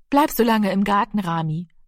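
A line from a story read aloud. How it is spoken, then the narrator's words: Plain. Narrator (German): sagte Frau Lenzen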